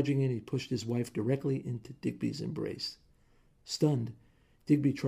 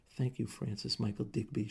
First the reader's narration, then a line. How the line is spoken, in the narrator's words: she whispered